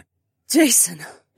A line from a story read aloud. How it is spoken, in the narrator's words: the woman gasped